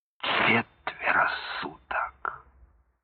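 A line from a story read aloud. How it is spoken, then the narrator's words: Groaning. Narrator (Russian): Колчин застонал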